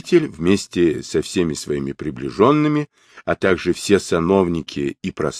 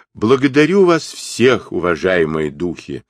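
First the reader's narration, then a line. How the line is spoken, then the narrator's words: Loud proclamation. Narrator (Russian): громко произнес Сунь-Укун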